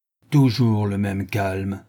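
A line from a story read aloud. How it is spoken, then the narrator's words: Restrained furious anger. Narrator (French): répliqua Sholmes avec un accent où grondait la plus effroyable colère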